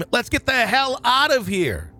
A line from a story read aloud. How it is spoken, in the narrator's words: Burley scream